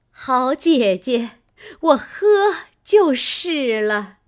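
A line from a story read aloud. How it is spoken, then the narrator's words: Laughing. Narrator (Chinese): 凤姐儿笑道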